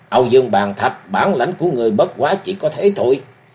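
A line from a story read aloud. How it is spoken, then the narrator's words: Loud laughter. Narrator (Vietnamese): ngửa mặt cười lớn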